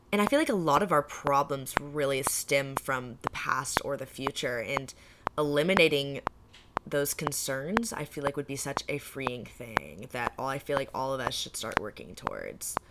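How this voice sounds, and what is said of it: Sick voice cutting out. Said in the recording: “my voice is starting to like cut out ... because I'm sick.”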